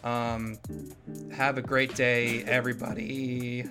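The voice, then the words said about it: Voice cracks. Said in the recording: “My voice just cracked.”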